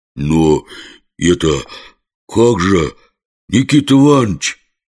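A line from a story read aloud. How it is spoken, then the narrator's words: Flustered, unsure. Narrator (Russian): стушевался наш герой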